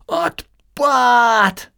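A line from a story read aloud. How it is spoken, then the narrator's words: Deafening shout. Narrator (Russian): оглушительно крикнула Эстелла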